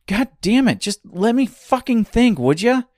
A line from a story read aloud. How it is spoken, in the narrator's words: screamed Dorothy